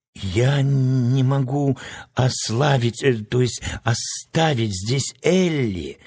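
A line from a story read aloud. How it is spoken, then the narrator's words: Muffled hollow voice. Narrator (Russian): глухо проговорил Страшила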